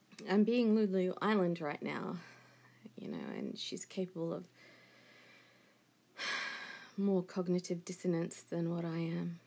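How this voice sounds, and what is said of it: Calm, unemotional radio voice. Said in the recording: “I don't sound emotional, and it's because I've got my radio voice on”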